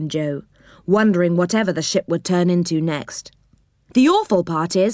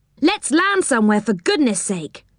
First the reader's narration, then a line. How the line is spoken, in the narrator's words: cried Rick